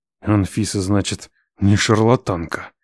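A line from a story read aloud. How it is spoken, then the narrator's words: Hissed through teeth. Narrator (Russian): сквозь зубы прошипел я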